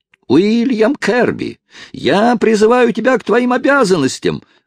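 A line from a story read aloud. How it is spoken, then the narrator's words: Distant yelling. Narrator (Russian): вопил издали Хайрам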